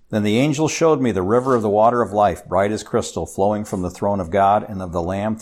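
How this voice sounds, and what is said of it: Speaker's own noticeable accent. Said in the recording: “my accent does come through in certain things”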